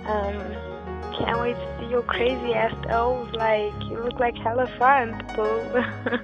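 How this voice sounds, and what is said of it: Rough, crappy-sounding voice. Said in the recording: “sorry for my voice, it's kinda like crappy right now, cause I'm fucked. I'm finished. I'm so high. I'm drunk at the same time”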